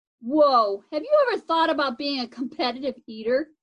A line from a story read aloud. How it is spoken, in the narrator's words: Scratchy laughed